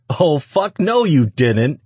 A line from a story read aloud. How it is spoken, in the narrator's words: Antonio howled